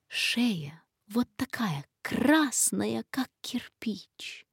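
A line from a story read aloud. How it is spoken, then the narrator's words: Whispered in ear. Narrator (Russian): Сидор шептал ему на ухо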